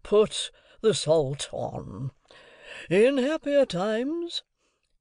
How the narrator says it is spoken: Pumblechook mournfully

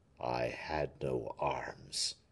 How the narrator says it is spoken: murmured Aramis, as wild and terrible in his wrath as the shade of Dido

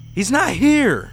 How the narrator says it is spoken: I shrieked

